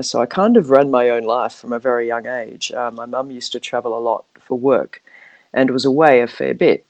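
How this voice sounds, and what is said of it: Australian accent. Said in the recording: “I'm Australian, as you uh, probably can pick up by my accent.”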